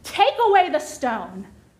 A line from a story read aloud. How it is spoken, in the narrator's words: Jesus screams